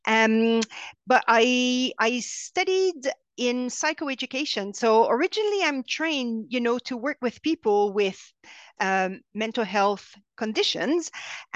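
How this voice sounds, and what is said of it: French Canadian accent. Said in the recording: “I'm French Canadian. You can hear that in my strange accent.”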